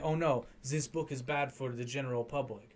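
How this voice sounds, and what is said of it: Weird put-on French-German accent. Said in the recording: “I don't know why I lapsed into some weird like French-German proto accent there.”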